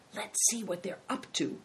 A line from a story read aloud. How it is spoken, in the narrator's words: whispered Big Tiger to Christian